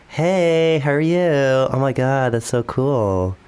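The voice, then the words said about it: Put-on Valley Girl accent. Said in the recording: “Valley Girl ... you're actually quite a good accent.”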